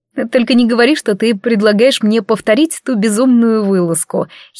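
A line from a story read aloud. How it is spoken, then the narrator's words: Giggling. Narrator (Russian): хихикнула я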